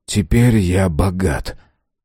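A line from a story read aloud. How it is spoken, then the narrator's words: Calm voice. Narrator (Russian): спокойно произнес этот голос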